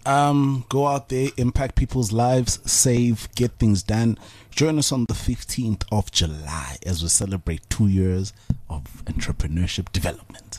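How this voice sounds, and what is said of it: Sultry late-night voice. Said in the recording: “sexy voice ... That's my 10 o'clock at night on a Sunday”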